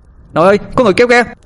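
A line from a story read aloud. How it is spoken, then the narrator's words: Shouting. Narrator (Vietnamese): Tôi hét lên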